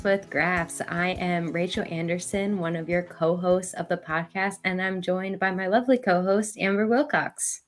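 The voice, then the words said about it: Voice slightly deeper than normal. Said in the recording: “I may sound a little different. I'm coming off of a cold. So my voice is a little deeper than normal”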